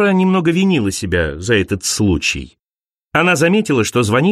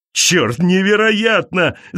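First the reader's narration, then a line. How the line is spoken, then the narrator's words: Shouting man. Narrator (Russian): закричал он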